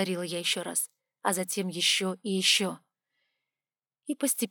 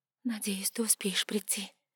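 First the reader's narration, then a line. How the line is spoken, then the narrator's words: Thoughtful whisper. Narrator (Russian): прошептала я задумчиво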